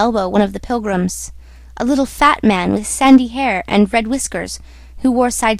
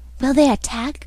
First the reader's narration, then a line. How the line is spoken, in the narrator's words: whispered an odd voice